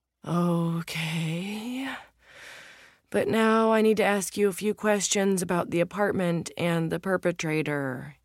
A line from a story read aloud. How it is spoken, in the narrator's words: he groans